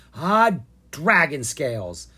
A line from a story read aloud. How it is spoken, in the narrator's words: Ella growled